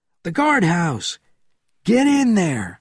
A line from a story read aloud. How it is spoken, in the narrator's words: shouted Bourne to Benjamin